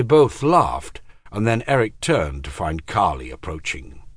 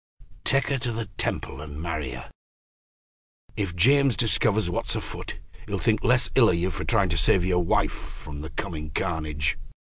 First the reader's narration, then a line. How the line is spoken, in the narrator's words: He whispered into Eric's ear